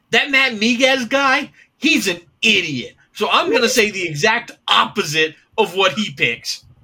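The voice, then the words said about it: Imitates another person's voice. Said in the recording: “my latest Zeke Palermo impression.”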